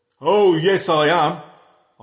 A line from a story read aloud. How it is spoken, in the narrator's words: I said in my loud, jolly voice